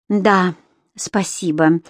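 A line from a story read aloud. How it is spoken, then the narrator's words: Exhausted breathy exhale. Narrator (Russian): обессиленно выдохнула Энсли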